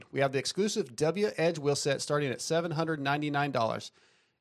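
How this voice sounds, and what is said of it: Reading an ad too fast. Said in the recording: “trying to read it fast ... I'm trying to read it too fast.”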